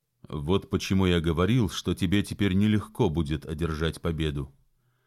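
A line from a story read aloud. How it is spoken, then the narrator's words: Calm, still composed. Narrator (Russian): все так же спокойно добавил Джон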